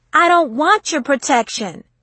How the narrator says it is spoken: she shouted

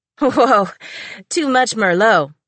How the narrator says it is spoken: giggled Eva

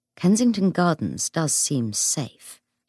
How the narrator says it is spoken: James said gravely

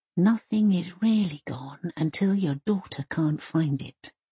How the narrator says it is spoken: she whispers

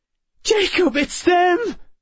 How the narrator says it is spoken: Emma cried

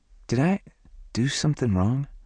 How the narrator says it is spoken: Her voice trembled on the last word

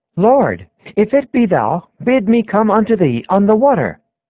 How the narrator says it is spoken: As if he could scarcely yet believe, he cried out

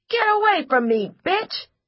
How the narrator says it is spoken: Julian yelled

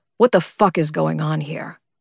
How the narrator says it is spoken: growled a low voice, cold as death and just as violent

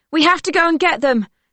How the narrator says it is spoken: Silke yells

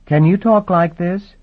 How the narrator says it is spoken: His voice came very high-pitched, up where some people can't make voluntary conversation, where low-sound ears are deaf

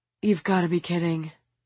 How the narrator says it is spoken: the teacher sighs

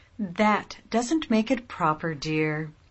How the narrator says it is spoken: put in her mother gently

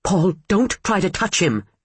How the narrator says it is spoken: she snapped

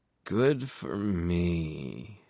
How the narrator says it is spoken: she slurred

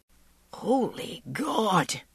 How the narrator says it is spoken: he wheezed

